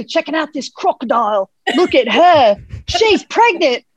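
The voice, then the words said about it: Australian accent impression. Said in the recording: “that accent is like impeccable ... do you really have Steve Irwin on the studio”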